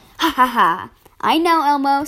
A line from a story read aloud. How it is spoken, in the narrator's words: said my brother